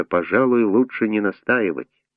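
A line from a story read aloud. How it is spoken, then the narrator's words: Quiet. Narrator (Russian): Председатель тихо сказал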